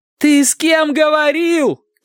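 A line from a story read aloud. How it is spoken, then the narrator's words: Shouting. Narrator (Russian): кричала Ева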